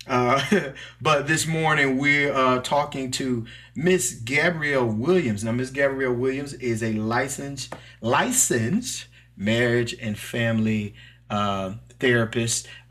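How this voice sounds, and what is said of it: Southern Mississippi country accent. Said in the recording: “I'm from Mississippi. I'm a country boy. So please forgive my little accent”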